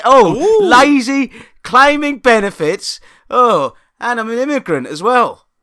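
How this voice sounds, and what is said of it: Mocking Tory politician voice. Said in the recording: “you sound like a fucking Tory”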